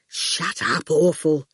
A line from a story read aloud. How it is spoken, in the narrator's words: Fifi muttered